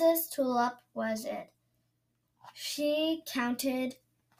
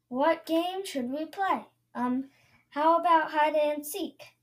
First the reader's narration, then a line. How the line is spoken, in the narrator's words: said Princess Magnolia